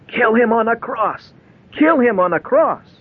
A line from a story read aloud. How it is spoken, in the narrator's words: the Jews yelled